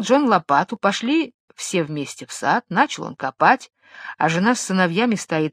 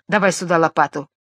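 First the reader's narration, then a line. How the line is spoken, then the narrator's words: Plain. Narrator (Russian): говорит жена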